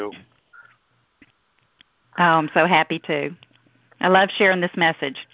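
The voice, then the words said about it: American Southern accent. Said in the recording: “Down here from the deep south. I hope y'all can understand my southern accent.”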